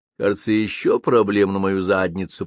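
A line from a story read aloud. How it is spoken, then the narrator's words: Grumbling. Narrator (Russian): проворчал Жано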